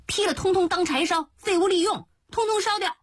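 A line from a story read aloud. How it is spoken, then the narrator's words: Children's excited shouts. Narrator (Chinese): 那两个小祖宗一边嗨嗨地叫着说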